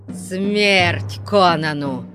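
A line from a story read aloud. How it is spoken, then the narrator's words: Growled. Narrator (Russian): зарычал Ольгерд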